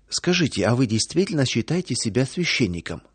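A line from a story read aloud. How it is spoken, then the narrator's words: Plain question. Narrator (Russian): спросил проповедник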